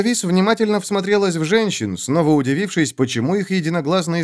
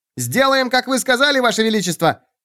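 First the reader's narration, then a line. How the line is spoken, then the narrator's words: Sharp bark, small woman. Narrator (Russian): рявкнула коротышка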